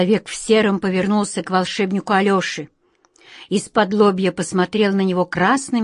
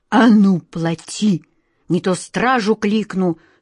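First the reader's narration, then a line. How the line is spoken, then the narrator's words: Threatening hiss. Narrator (Russian): с угрозой прошипел он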